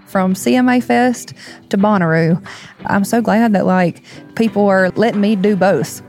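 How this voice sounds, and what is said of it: Noticeable regional accent. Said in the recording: “with an accent like this ... she has a point with that accent”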